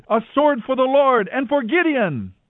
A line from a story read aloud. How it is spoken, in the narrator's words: the Midianites shouting as they ran